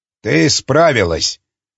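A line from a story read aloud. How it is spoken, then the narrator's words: Dry. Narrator (Russian): сухо сказал он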